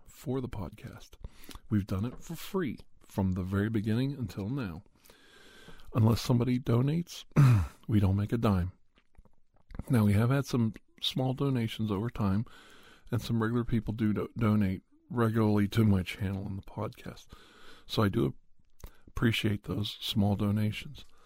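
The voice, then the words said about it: Strained voice with a cold. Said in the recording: “my voice is not with it today, because I've been recording a lot ... I've got a little bit of a cold.”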